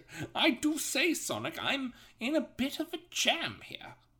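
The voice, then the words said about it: Distinguished old British gentleman voice. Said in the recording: “I don't know why I made him British ... He sounds like a distinguished old British gentleman.”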